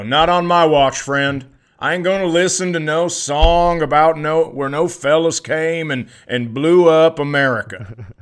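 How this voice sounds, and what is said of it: Put-on Southern American accent. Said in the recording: “I'm using the Southern accent.”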